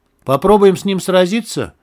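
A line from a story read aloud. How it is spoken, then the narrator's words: Shouted. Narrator (Russian): крикнул кирпич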